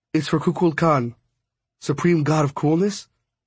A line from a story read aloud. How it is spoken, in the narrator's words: sighed